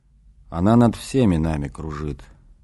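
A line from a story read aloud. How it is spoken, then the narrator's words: Quiet, to himself. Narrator (Russian): тихо отозвался Иисус, как бы говоря с самим собой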